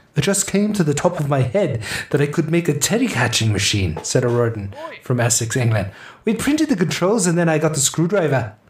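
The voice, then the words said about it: Attempted Scottish-tinged British accent. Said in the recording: “I said it without the accent. I gotta start over... I'm trying to get a little bit of Scottish in there.”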